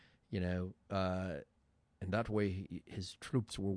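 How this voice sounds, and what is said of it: Usual voice. Nothing is said of it.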